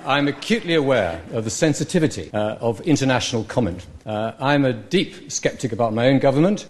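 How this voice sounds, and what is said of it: British accent. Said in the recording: “somebody say it in a British accent”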